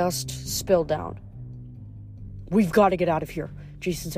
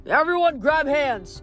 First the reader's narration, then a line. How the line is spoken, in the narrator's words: Nico yelled